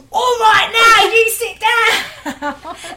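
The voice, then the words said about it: Shouting in a Cockney accent. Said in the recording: “she can't shout over 3 decibels unless it's in a London accent... We discovered that I can only shout in Cockney.”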